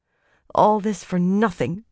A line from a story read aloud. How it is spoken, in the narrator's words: Alejandra said bitterly